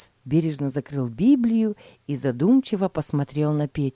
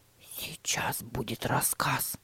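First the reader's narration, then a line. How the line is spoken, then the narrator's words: Whisper. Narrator (Russian): прошептал Тима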